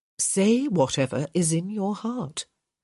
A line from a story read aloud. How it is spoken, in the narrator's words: Violet said